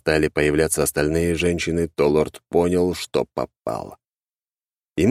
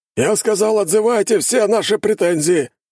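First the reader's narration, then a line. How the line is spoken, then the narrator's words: Man barking. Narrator (Russian): рявкнул мужчина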